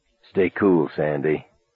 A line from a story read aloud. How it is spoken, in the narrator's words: Buddy said softly